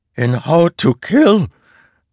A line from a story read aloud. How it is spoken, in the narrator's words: Father asked, his voice cracking